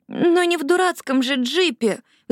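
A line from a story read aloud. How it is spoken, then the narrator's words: Pleading. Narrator (Russian): взмолилась Лили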